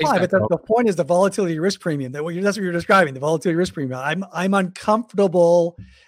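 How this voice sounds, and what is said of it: Usual voice. Nothing is said of it.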